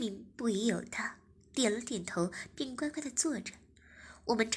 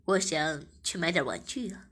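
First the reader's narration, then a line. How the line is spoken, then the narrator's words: Smiling. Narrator (Chinese): 我笑着说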